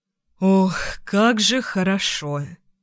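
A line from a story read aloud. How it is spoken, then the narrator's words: Smirking exhale. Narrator (Russian): ухмыляясь, выдохнул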